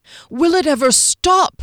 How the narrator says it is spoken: Derry cried in despair

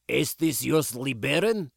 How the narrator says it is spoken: He called out gruffly

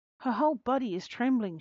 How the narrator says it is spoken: she cried

